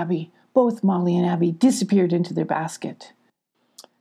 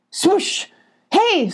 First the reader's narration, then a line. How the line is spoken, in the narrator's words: screamed Abby